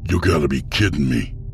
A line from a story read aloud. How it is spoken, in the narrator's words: Boswick snapped